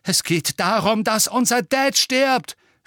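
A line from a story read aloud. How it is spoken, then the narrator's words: Shouting. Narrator (German): schrie George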